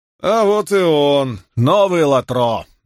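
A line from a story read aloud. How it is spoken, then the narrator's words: Mocking. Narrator (Russian): насмешливо произнес Фортис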